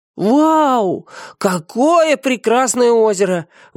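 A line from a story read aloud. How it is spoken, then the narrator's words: Delighted chorus shout. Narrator (Russian): в восхищении закричал хор микролюдей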